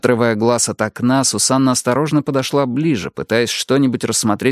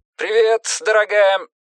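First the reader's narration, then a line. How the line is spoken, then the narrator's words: Too loud. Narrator (Russian): Бьорн ответил как-то слишком громко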